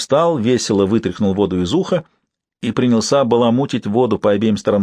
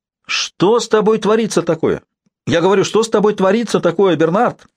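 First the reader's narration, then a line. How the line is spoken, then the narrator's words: Shouting through a door. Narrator (Russian): прокричала она в замочную скважину ванной комнаты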